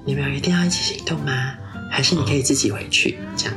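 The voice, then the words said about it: Very quiet, hushed speech. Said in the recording (Chinese): “我很小声，我怕我怕那个粗鲁男听到，所以我其实很小声，我就是用类似他的音量这样”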